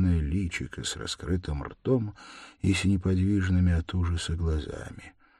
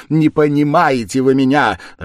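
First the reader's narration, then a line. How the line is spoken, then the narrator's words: Irritated shout. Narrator (Russian): раздражительно крикнула Катерина Ивановна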